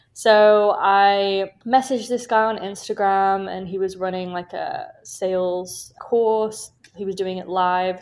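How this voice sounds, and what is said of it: British accent. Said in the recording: “as you can probably tell from my accent, I'm from the UK.”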